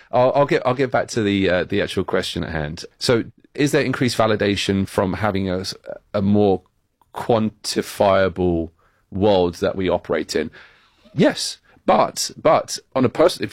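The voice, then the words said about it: British accent. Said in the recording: “my British accent that makes me sound more ... our guest has a British accent”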